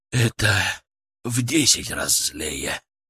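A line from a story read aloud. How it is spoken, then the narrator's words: Exhaled words. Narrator (Russian): Выдохнул он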